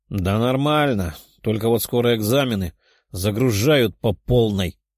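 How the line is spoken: Grumbling. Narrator (Russian): проворчала Даша

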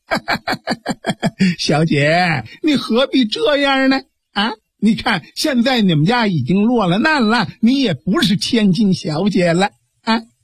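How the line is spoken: Lecherous laughter. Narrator (Chinese): 吴国北一阵淫笑

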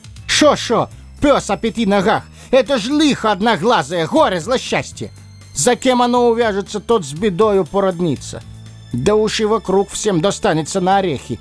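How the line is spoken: Yelling at full strength. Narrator (Russian): Лис заорал, что было силы

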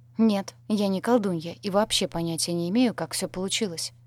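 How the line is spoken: Very calm. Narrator (Russian): произнесла максимально спокойно

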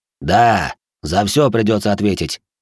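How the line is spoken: Angry snarl. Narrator (Russian): зло оскалился

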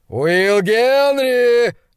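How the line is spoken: Roar. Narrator (Russian): взревел он

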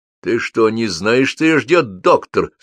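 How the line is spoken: Angry man. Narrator (Russian): зло произнес дядька

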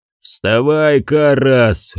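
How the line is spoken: Growled. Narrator (Russian): рычал

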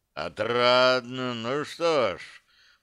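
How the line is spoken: Continuing, almost sighing. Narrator (Russian): продолжил Семаргл и чуть-чуть не вздохнул

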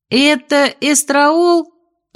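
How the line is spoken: Loud shout. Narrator (Russian): громко крикнула я

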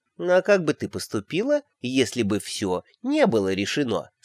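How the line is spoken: Plain. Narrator (Russian): спросила нянюшка

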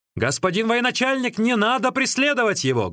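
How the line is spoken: Loud shout. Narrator (Russian): громким голосом крикнул

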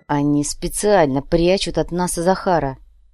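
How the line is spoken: Growling. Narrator (Russian): прорычал Адриана

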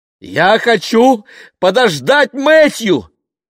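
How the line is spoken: Shouted. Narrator (Russian): закричала она

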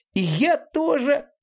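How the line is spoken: Small creature's squeak. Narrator (Russian): пискнул маленький зверек

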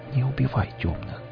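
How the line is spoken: Whisper. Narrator (Russian): прошептала она

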